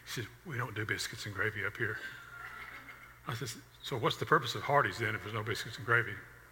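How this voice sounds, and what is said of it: Southern US accent. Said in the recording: “Oh, you're from the South, aren't you?" I said, "Yes, I am." ... Our accents give us away sometimes where we're from”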